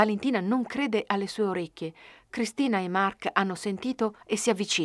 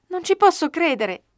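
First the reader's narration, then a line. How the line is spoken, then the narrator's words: Exclaimed. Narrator (Italian): esclama Cristina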